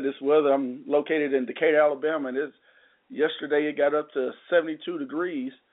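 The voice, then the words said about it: Sick, cold-affected voice. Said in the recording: “excuse my voice. I'm still getting over this little cold”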